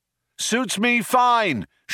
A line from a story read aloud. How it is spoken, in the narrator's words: shouted Zaphod back